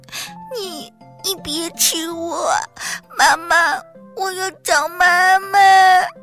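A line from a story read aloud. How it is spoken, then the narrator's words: Frightened crying child. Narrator (Chinese): 皮皮吓哭了，哭着说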